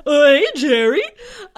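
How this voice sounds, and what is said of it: Kramer character voice impression. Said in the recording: “That's my Kramer impression. ... That's very good.”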